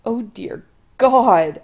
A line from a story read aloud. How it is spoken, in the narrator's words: Adam groans